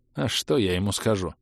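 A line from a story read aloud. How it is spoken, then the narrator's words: Sighing. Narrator (Russian): вздохнул Брэндон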